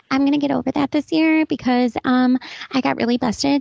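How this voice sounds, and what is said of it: Fast, cutesy baby voice. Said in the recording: “I'm talking in my baby voice really, really quickly ... It's almost like Disney animation voice.”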